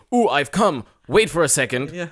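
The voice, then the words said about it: Put-on stereotypical white man voice. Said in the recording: “You did your white man voice there. ... It's my white man voice.”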